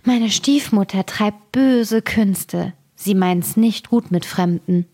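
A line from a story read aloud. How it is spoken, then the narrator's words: Sighing. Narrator (German): Das Mädchen seufzte und sprach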